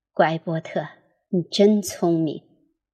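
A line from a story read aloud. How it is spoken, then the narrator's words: Soft gentle voice. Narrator (Chinese): 轻声说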